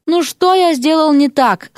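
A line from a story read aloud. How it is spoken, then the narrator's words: Moaning. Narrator (Russian): стонал он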